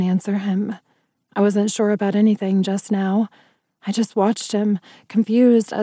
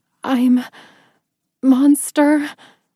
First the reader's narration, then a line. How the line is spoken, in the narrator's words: I panted as tears started down my cheeks